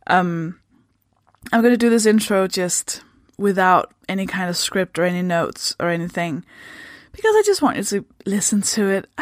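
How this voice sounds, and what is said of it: Danish accent in English. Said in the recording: “I'm from Denmark. That should explain the accent.”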